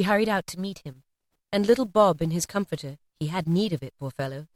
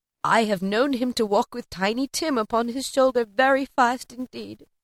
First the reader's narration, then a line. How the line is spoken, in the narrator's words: she said in a steady, cheerful voice that only faltered once